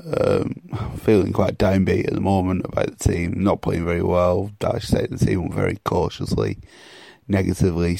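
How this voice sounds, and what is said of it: Hoarse, strained voice. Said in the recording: “I've pretty much lost my voice from the weekend”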